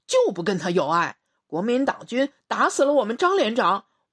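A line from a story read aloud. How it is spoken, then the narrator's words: Angry. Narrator (Chinese): 王天浩怒视林成业，说道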